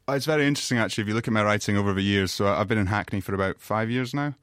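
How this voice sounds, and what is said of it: Slight non-London regional twang. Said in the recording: “Our listeners can probably tell you're not a native Londoner. You have a bit of a twang.”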